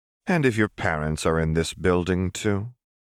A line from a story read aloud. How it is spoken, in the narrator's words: Renata asked calmly